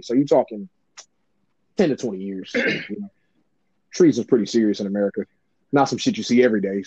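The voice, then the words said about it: Imitates another person's voice, newscaster style. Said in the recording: “You copying Charlamagne?... I can hear it in your goddamn voice... you don't talk like this... like you're doing a goddamn Weather Channel with the fucking news... I am trying to be intentionally sarcastic.”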